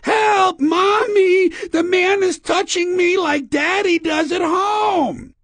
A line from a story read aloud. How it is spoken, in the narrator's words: the sound of a little girl's voice screaming